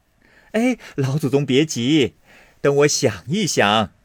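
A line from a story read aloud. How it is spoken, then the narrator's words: Laughing. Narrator (Chinese): 凤姐笑道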